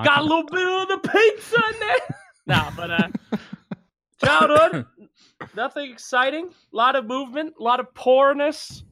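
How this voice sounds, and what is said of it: Mixed American accent, slightly New York. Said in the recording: “my weird-ass accent. Got a little New York in there a little bit”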